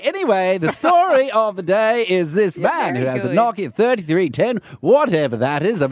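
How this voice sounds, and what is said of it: Old-time radio host accent. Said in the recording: “I can't do this accent... it feels good to be in the old time”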